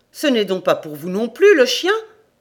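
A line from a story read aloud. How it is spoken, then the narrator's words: Exclaimed. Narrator (French): s'exclama Jobik Andrés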